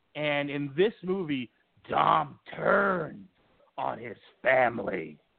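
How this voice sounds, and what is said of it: Vince McMahon impression. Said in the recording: “doing the Vince McMahon voice as done by Bruce Pritchard”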